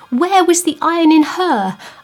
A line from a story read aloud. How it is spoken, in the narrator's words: I moaned within my stricken spirit